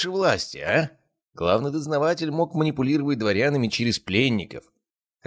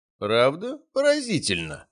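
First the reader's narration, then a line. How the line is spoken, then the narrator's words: Skeptical snort. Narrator (Russian): хмыкнул Бондарев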